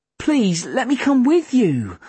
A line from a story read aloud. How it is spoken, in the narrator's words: I pleaded